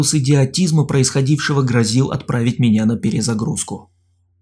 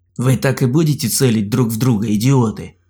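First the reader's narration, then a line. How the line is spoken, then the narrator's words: Growling. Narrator (Russian): прорычал я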